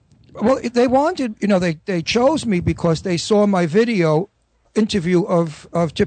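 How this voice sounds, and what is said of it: Usual voice. Nothing is said of it.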